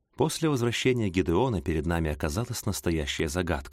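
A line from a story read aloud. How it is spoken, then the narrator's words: Plain. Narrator (Russian): сказал мистер Джордж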